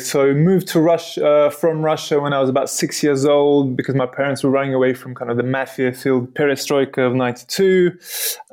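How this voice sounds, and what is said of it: English accent. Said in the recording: “You have a nice English accent.”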